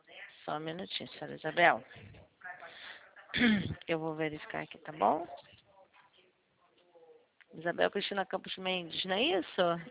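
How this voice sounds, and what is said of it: Carioca Brazilian Portuguese accent. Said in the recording (Portuguese): “Tu é carioca, é? ... Tá, percebi logo. ... É por causa do sotaque, né? Todo mundo fala isso.”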